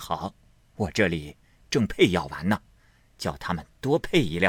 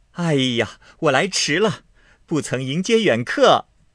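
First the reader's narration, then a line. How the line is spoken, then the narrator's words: Laughing greeting. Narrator (Chinese): 笑声 说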